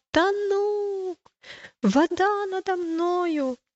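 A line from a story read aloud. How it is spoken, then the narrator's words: Panicked shout, little pilgrim. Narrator (Russian): маленький пилигрим потерял почву под ногами и закричал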